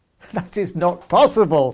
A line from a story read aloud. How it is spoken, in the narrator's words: laughed the Tsar